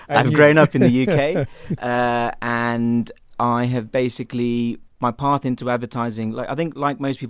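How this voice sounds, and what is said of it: British English accent. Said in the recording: “Despite my accent, I was actually born in India... ended up in London. So as you can tell by my accent.”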